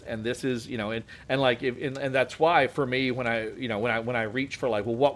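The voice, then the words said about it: Relaxed Appalachian accent. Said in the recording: “my accent is descended from yours. Like, the Appalachian accent is the Scots-Irish ... if I relax into my actual accent, the way I sound when I talk to my family, you know, it comes out more like this”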